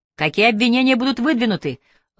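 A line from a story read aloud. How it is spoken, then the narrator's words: Journalist shouting. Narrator (Russian): выкрикнул другой журналист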